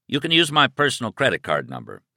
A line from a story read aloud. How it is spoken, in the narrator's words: he said